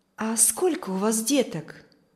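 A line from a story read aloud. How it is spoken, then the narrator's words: Plain question. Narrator (Russian): спросила миссис Ковальская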